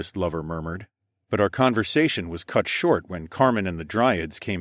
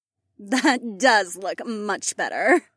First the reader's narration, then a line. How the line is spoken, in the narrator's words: Marina giggled